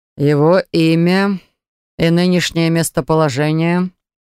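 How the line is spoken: Dry question. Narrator (Russian): Сухо спросил герцог

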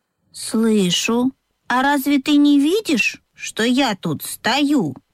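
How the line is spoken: Calm objection, donkey. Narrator (Russian): спокойно возразил ослик

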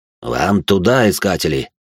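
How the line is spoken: Angry smirking tone. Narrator (Russian): зло ухмыльнулся бандит

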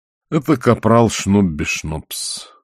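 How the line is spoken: Tired. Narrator (Russian): устало сказал он

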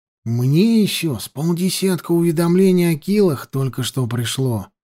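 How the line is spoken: Whisper. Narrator (Russian): сказал шепотом Петька

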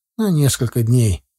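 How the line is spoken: Gloomy. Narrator (Russian): мрачно кивнул Витька

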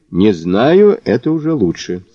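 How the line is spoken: Plain. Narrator (Russian): сказал Мазур

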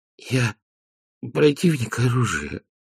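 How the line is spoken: Wheezing. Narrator (Russian): просипел Веренс

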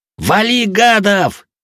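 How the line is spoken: Yell. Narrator (Russian): заорал я

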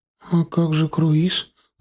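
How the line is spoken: Timid question. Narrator (Russian): робко спросила Женя

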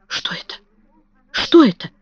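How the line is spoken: Whisper. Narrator (Russian): прошептала миссис Ленокс

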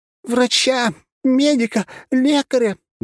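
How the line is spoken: Shrieking young woman. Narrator (Russian): завизжала его девушка

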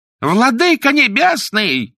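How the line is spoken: Shouted. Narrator (Russian): закричал судья

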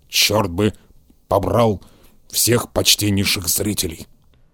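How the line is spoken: Grumbling. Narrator (Russian): проворчал он

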